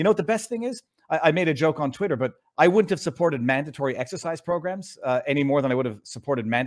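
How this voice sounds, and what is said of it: Usual voice. Nothing is said of it.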